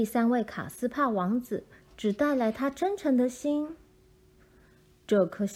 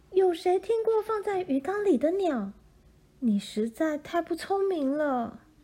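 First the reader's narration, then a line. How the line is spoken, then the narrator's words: Shouting. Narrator (Chinese): 克莉迪娜大叫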